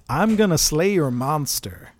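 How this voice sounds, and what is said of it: Put-on American accent. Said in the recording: “Kevin Costner, even, as an incongruous American ... Did you like my American accent? Is that a good American ... Accent? ... Perfect. Absolutely nailed it.”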